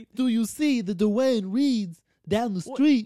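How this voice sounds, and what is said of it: Gruff Godfather-style New York voice. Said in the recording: “super thick New York accent ... now you're the Godfather. Now you're Marlon Brando.”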